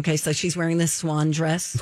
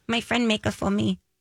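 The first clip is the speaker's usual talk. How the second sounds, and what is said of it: Imitates another person's voice. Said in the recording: “I'm going to do my impression of Bjork. ... Spot on.”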